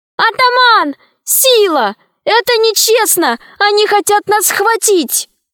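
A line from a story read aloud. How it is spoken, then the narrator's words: Screamed. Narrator (Russian): Алиса закричала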